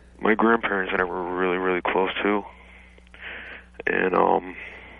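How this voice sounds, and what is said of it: Nervous, unusually deep voice. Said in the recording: “I'm just nervous, that's why my voice is so deep”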